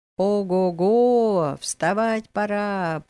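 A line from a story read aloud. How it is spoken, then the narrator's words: Drawn-out call. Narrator (Russian): протянулось по стоянке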